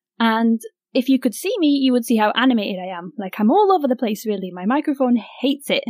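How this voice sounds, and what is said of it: Excited, animated speaking voice. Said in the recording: “My voice is excited.”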